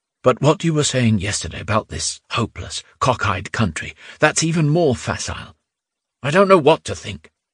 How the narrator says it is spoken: Nerzin replied just as quietly

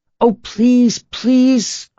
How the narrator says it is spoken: cried the children

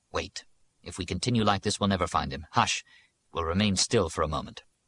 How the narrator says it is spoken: added more calmly

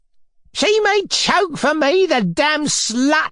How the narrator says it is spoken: the woman shrieked after her

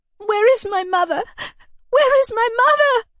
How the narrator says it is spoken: I cried, sobbing loudly, unable to conceal my misery any longer

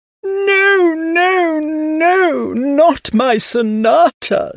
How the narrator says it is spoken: she screamed

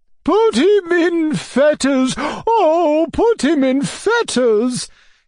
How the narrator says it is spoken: cried Madame la Générale

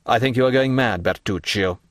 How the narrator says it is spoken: said the Count coldly

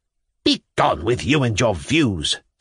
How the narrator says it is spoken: said the grandmother angrily

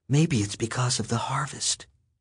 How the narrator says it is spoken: whispered

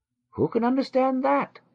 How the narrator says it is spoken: Joseph cried out

